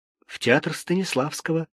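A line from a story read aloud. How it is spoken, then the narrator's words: Timid answer. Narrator (Russian): робко ответил Сережа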